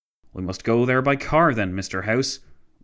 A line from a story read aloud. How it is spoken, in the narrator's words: Wilson exclaimed